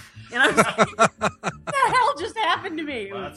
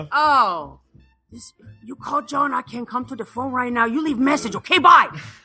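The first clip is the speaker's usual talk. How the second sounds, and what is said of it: Imitated thick Asian accent. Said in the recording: “his dad is like fresh off the boat and still has this crazy accent ... super thick accent”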